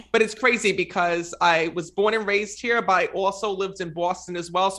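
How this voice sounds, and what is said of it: Rhode Island, New York, Boston accent. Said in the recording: “Accent. ... So I'm from Rhode Island. ... I got a little bit like Rhode Island, New York, and Boston all together. ... What a fun voice.”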